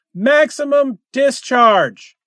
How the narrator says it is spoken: he cried

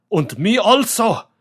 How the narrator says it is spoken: snapped Von Hausmann

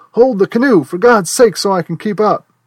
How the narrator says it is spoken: Radiman yell

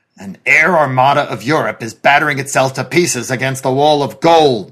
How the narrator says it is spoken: the president said bitterly

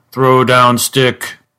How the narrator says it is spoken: thundered this monster impressively

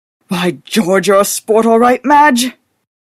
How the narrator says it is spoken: He exclaimed fervently

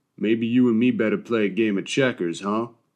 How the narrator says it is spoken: he drawls finally

